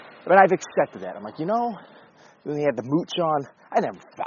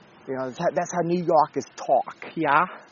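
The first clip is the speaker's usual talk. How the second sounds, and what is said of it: Attempted New York accent. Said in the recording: “a blunt, plain-spoken New Yorker ... I don't know what accent that was”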